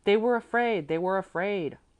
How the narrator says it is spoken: all voices cried together

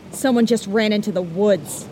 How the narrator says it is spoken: one man yelled

